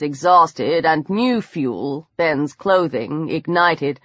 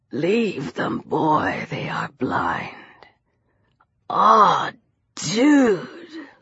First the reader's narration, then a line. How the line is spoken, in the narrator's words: Lucian breathed